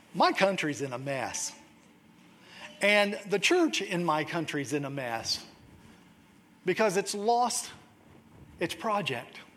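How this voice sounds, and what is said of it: Slight American southern accent. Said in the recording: “You've probably picked up a bit of a southern accent”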